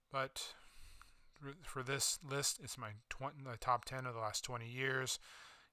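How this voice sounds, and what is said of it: Strained, fading hoarse voice. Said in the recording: “losing my voice a little bit”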